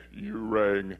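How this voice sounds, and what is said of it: Bad Lurch impression. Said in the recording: “That was a really bad Lurch impersonation.”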